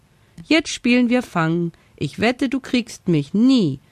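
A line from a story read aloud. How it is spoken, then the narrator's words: Laughing call. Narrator (German): Lachend rief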